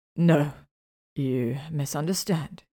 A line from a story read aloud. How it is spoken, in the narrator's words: he chuckled